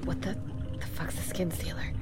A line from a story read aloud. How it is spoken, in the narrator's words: Flora will say quietly